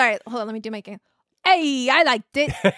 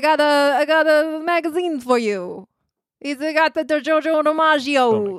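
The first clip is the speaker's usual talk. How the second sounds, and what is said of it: Bad 1940s-style put-on accent. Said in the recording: “Was that your 40s accent? ... That was terrible.”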